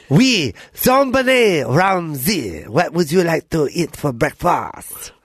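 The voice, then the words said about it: Attempted French accent. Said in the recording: “everyone became French ... That's not a French accent. ... Yeah, that's better.”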